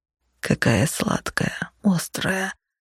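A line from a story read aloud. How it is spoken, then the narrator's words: Muffled mumbling. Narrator (Russian): глухо бормотал он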